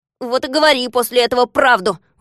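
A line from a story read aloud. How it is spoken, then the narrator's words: Grumbling. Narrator (Russian): ворчал Незнайка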